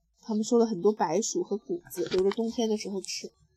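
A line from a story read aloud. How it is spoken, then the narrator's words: Muttering. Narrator (Chinese): 爸爸嘟囔着说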